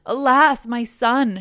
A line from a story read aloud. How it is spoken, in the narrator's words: she cried